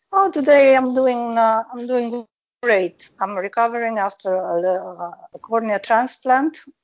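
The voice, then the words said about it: Italian-sounding accent. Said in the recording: “your accent reminds me a lot of my uh, my great uh, my great Noni's accent ... she came over from Italy when she was a little girl”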